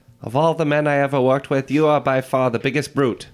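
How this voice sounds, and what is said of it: Put-on Transatlantic accent. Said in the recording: “Transatlantic accent”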